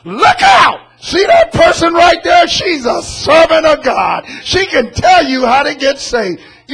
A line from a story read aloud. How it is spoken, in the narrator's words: somebody comes up behind us and yells out to all the people around